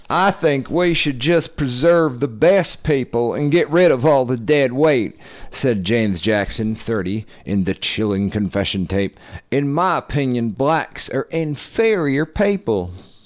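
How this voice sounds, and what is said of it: Lindsey Graham impression. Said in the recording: “do a Lindsey Graham voice”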